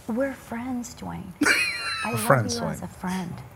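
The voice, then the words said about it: Whispering. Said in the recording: “she's whispering”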